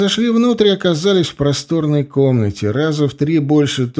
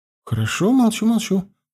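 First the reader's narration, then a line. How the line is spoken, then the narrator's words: Muttered. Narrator (Russian): пробормотала она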